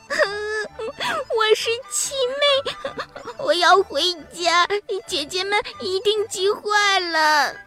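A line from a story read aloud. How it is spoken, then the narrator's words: Crying child. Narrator (Chinese): 小娃娃哭着说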